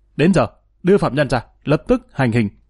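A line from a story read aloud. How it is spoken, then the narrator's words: Fierce shout. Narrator (Vietnamese): Quan hành hình hung hăng quát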